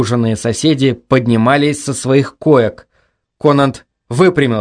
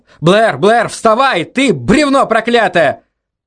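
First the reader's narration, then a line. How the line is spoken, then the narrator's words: Shouted. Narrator (Russian): Конант закричал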